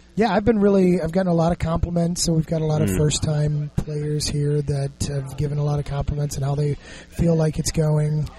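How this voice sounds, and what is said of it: Strained, hoarse voice. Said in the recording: “pardon my voice. I've been talking and yelling all day over the game, so I'm a little bit verklempt”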